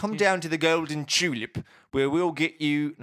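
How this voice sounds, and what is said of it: Attempted British or Australian radio-ad accent. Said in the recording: “he's got that really nice British accent ... Australian, isn't it? ... he might be Australian ... Can't do it ... We'll work on it”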